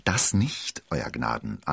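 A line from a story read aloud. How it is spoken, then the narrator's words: Plain. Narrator (German): antwortete der Wirt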